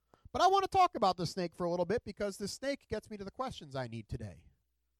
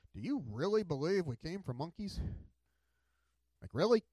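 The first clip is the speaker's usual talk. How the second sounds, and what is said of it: Mocking, incredulous tone. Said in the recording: “you can make any position sound ridiculous if you use a certain tone of voice”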